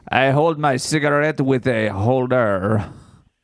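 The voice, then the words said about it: Put-on French accent. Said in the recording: “I speak with a French accent to try and seem more cool.”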